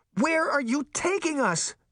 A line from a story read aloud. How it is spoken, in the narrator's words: Daphne cried, trying and failing to break free from the woman's iron talons